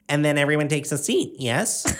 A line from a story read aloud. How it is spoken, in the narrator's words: Pansy chirped